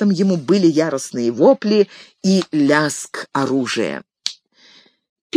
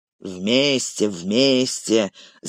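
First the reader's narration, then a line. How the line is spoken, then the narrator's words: Grumbling. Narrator (Russian): заворчал Углук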